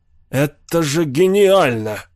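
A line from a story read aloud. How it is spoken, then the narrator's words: Exclaiming. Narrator (Russian): воскликнул Локин Бишоп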